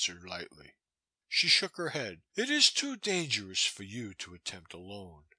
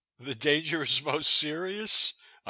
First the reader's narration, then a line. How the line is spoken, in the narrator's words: I laughed